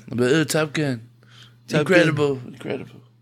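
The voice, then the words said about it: Poor Donald Trump impression, French-sounding. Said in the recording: “I wish I could do a good Donald Trump impression ... We just sound like French people speaking English.”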